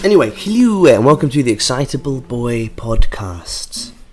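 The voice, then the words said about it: Soft radio presenter voice. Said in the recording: “Doing my soft radio voice.”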